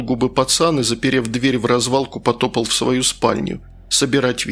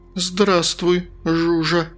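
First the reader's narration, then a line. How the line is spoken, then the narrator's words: Startled stammering. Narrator (Russian): от неожиданности пролепетала я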